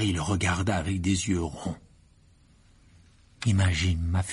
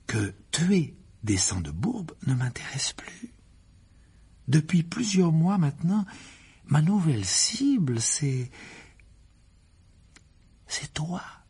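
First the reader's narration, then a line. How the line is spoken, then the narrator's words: Calm voice. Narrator (French): reprit Gédusor d'une voix tranquille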